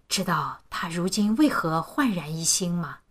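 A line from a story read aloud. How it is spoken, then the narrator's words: Smug, hushed, mysterious question. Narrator (Chinese): 他越发得意，压低声音，也更神秘地问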